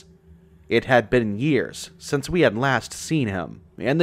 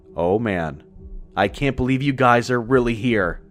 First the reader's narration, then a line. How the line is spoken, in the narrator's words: he exclaimed to us